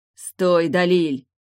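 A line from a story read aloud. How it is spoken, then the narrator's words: Menacing growl. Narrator (Russian): грозно рыкнул Явор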